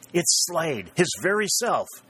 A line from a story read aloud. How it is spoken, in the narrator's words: he exclaimed in excitement